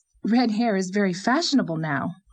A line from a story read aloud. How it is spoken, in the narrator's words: said Anne, trying to smile, but speaking rather coldly